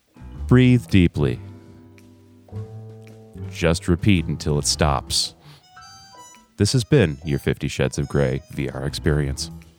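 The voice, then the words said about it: Sultry, sleepy bedtime-story voice. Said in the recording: “this sultry voice ... some sort of sleepy time bedtime story.”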